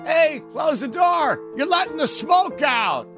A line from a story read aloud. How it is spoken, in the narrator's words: Uncle Frank would laugh